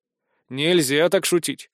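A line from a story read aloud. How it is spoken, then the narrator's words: Grumbling after throat-clearing. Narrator (Russian): проворчал, откашлившись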